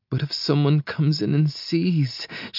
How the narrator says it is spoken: whines

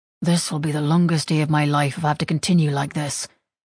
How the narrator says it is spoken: He let out a growling huff and mumbled

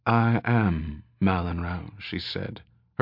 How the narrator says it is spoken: she said, her voice soft and distant

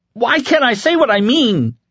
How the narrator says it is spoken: He screamed

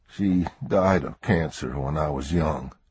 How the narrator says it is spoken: Alex murmured

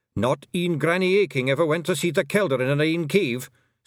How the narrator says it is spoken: snapped Rob Anybody

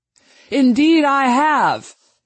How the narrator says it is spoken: he cried

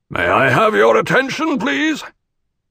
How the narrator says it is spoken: Teg called out

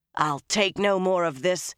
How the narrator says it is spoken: she growled

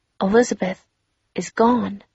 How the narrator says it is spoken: she said in a quiet voice

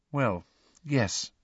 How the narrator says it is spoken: said Hermione quietly

